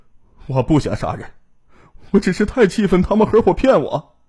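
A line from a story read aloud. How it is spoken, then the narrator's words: Sobbing bitterly. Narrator (Chinese): 在审讯中，秦兵痛哭道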